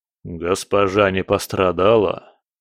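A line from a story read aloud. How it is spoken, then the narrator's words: Low booming drone. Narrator (Russian): прогудел он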